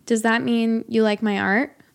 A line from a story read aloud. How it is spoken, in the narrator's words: I said